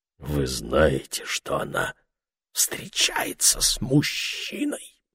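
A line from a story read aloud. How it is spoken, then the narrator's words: Trembling whisper. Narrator (Russian): спросил он дрогнувшим шепотом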